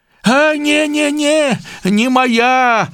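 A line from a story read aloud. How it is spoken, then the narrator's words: Shouting. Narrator (Belarusian): закрычаў бядняк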